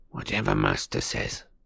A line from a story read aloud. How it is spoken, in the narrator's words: he muttered furiously